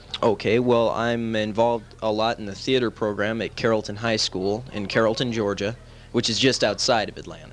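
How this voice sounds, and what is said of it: Slight regional accent. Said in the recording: “you picked up a slight accent, too. I can hear it. ... It's a good accent.”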